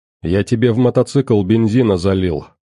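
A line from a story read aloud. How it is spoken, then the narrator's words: Plain. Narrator (Russian): сказал, наконец, грач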